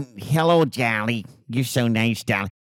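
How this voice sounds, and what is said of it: Imitates another person's voice, badly. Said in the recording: “my horrible Carol Channing impersonation ... And it was just horrible.”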